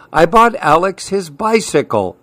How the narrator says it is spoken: Uncle Mike exclaimed to Leander, his father

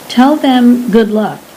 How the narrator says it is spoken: said

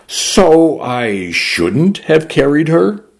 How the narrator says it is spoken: the would-be asked

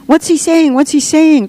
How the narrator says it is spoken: cried the children, almost in unison

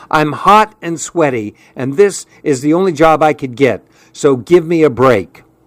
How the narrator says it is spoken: said in an irritated tone

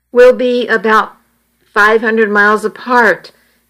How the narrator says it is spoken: he replied

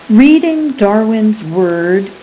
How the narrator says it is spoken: he said

